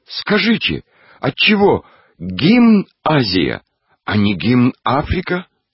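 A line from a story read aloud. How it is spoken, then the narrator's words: Loud shout, young schoolboy. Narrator (Russian): краснощекий третьеклассник-гимназист громко закричал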